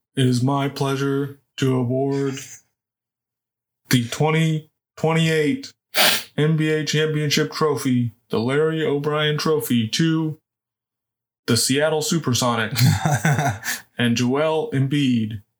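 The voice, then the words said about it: Imitates another person's voice. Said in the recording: “Is that my Adam Silver impression? ... I think that's your intro to this podcast voice or something ... It's some weird voice.”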